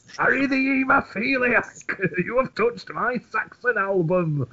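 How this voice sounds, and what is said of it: Imitates another person's voice. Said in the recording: “my impression of you at you”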